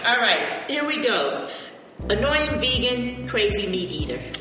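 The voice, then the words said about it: Jamaican-type island accent. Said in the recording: “Jamaican type island girl accent that she's had since junior high school”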